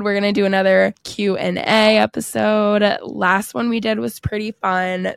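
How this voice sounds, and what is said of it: Hoarse, failing voice. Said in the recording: “my voice is literally going out”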